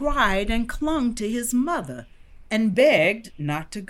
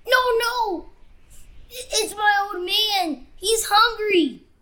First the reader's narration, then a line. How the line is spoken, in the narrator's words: sobbed Titee